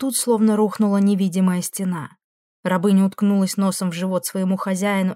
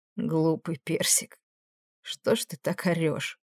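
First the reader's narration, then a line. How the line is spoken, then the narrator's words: Hoarse question. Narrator (Russian): хрипло спросил Фрейно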